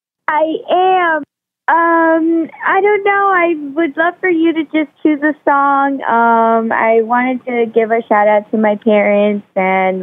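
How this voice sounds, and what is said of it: Happy, cheerful voice. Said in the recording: “You sound very happy.”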